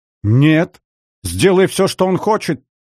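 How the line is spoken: Hysterical shout, spluttering. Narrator (Russian): выкрикнула истерично Елена, обильно брызгая слюной

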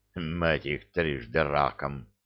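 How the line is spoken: Muffled curse, elderly man. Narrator (Russian): глухо выругался какой-то пожилой генерал

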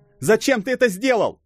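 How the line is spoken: Shout. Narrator (Russian): закричал Томми

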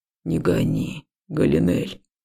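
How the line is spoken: Quiet but confident. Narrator (Russian): сказал тихо, но уверенно

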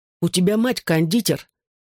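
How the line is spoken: Angry reminder. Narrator (Russian): сердито напомнил

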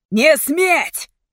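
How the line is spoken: Thundering voice. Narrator (Russian): прогремел он

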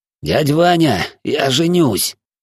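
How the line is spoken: Hoarse wheeze, cat. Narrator (Russian): просипел кот

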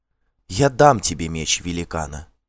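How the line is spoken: Quiet, witch. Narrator (Russian): тихо сказала ведьма

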